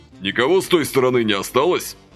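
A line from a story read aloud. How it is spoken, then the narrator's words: Stern inquiry. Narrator (Russian): строго осведомился Василий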